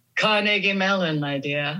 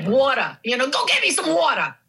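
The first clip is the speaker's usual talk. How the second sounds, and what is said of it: Heavy New York accent. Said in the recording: “a very heavy New York accent ... Queens of all places”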